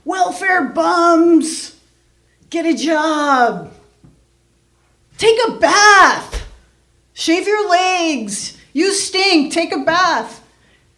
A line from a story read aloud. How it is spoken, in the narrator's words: They're shouting things like